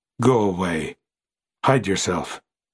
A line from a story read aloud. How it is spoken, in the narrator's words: said in that profound tone